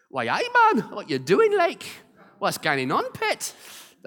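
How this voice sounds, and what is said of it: Put-on Geordie accent. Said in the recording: “That's a Geordie accent”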